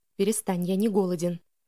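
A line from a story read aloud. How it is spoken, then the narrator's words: Whispering. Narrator (Russian): прошептал Элиас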